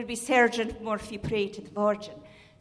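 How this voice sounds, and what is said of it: Southwestern Irish accent, tapped R's. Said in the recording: “in southwestern Ireland, like in Galway or Sneem or Killarney ... we would think that, as Americans, that sounds Scottish because of the tapped R's”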